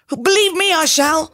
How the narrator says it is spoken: cried the bird

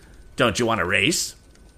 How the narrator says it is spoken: he inquired of Tom in a sneering tone

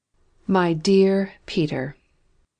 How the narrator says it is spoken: he said gravely

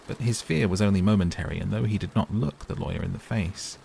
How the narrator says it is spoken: he answered coolly enough

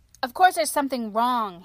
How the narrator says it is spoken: he snapped

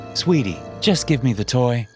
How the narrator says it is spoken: I said

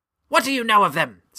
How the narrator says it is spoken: snapped the headmaster sharply

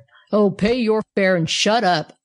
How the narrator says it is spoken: growled the polar bear

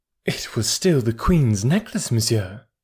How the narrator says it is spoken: replied the Countess haughtily

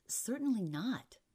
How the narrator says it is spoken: Asbury muttered

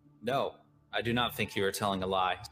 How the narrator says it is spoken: said Watanabe

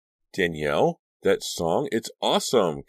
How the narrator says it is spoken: Caroline exclaimed from the bathroom doorway

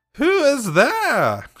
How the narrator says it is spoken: she exclaimed, coughing loudly

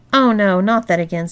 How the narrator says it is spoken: sighed Olivia

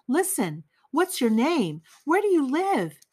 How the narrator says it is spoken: asked hurriedly, her voice breaking as she gasped for breath

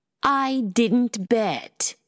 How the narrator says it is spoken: Llewellyn said in a superior tone

